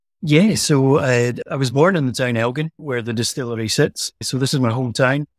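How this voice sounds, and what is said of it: Scottish accent. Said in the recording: “I hear a Scottish accent”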